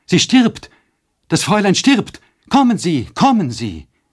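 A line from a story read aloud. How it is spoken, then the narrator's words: Terrified scream. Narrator (German): Mit entsetzlichem Schrei hereinstürzend rief Nanny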